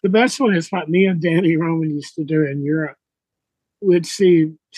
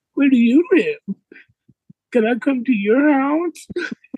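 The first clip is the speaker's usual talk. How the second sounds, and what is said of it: Old man voice, crazy friendly. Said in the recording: “old man voice ... try to get a little crazy, friendly”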